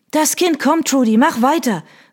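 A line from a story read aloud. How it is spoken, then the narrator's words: Called out. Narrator (German): rief Hattie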